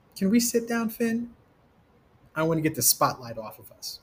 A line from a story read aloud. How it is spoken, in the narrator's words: Vibe asked